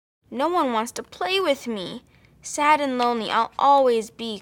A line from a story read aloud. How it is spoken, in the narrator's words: cried Nadia